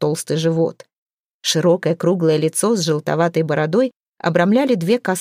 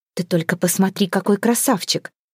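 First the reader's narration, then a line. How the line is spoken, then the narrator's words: Admiring, envious mutter. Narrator (Russian): С восхищением и завистью бормотала Хёрдис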